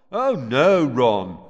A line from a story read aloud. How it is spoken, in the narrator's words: came Fred's voice, very sarcastically